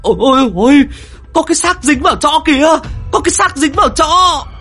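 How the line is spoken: Startled screaming. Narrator (Vietnamese): chúng nó giật mình, gào thét

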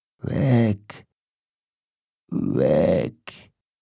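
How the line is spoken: Slurred, barely articulate. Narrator (German): lallte es unartikuliert und doch verständlich von der fahlen Lippe

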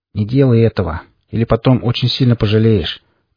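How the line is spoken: Calm, indifferent. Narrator (Russian): произнес Форд тем же спокойным, равнодушным голосом

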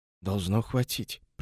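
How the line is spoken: Young man whispering to himself. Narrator (Russian): прошептал сам себе юноша

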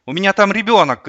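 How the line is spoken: Shout. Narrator (Russian): крикнула Лариса

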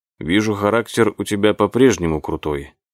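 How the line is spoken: Mumbled. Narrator (Russian): пробормотал Роско

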